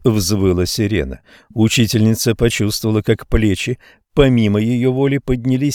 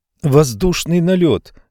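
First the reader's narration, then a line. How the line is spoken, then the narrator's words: Girl shouting. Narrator (Russian): крикнула девочка по имени Шарлотта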